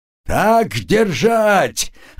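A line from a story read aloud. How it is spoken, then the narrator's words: Gloating shout. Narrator (Russian): злорадно кричал Критиил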